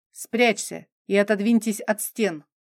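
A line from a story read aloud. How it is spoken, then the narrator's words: Low male voice, sharp, clipped. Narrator (Russian): Мужской низкий голос, мне незнакомый, произносил слова резко и отрывисто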